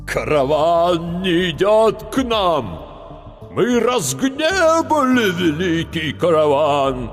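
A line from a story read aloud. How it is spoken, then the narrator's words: Terrible voice, elder. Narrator (Russian): заговорил страшным голосом старший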